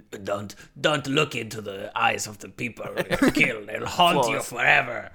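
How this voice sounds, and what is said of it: Imitates another person's voice. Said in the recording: “my terrible impression ... That was flawless.”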